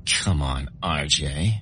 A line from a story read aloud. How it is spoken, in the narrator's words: giggled